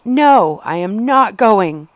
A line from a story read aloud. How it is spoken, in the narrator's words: screamed